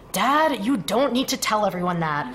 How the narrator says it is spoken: Foggy groaned to the concrete flooring

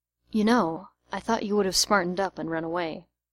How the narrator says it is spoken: Arthur, surprised, whispering to him

